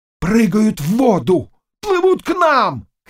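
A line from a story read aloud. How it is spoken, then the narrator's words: Men shouting. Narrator (Russian): кричали мужики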